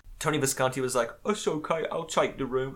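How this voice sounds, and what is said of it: Put-on English accent. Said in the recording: “Is Tony Visconti English? I don't know. I just like doing that. I just like doing this accent.”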